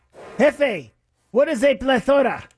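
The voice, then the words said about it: Bad put-on stereotyped accent. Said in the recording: “You were trying to do Hop Sing from Bonanza. ... I thought you were trying to be Charlie Chan at one point ... Police inspector from Young Frankenstein ... That was one of the worst.”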